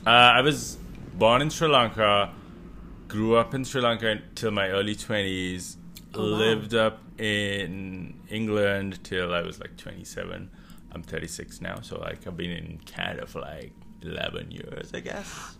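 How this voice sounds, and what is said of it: Mixed accent, slightly English-sounding. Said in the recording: “I was trying to pinpoint your accent because it is a little Englishy ... it's all over the place ... But not completely”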